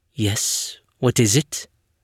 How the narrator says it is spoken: said, her voice calm, her tone even

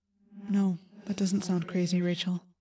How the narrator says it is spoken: I said softly

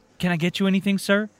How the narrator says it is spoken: She asked, rather cheerfully

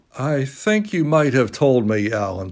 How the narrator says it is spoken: said Huey sulkily

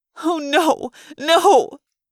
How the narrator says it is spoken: Lauren wailed

